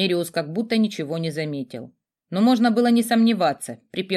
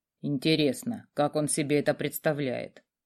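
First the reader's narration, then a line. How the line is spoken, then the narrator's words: Grumbling mutter. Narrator (Russian): пробурчал некромант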